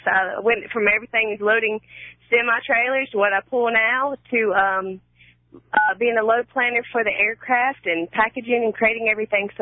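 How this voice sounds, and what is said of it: North Carolina accent. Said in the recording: “I have a feeling it may not be Ann Arbor, Michigan with that accent you've got going there ... I'm from Raleigh, North Carolina.”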